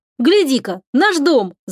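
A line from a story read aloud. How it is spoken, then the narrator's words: Shouting. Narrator (Russian): закричал Славик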